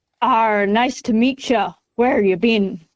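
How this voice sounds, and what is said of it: Put-on pirate accent. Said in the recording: “the first line in the pirate accent”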